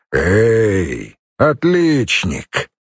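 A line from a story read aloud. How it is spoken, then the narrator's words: Rumbling bass call. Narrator (Russian): окликнул ракочущим баском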